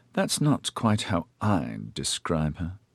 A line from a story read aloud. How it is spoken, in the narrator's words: Coriolan muttered